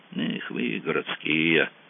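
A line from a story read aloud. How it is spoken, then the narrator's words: Snort. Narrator (Russian): хмыкнул Кацуба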